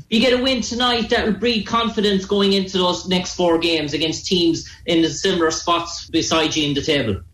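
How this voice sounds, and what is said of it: Irish accent. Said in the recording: “the reporter's Irish accent ... I like your accent. I want to learn how to talk like that.”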